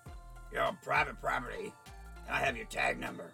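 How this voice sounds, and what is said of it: Deep, threatening male voice. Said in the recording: “In a deep voice,”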